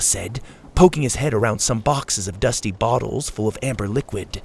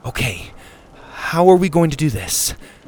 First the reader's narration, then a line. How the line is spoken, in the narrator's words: Susie said nervously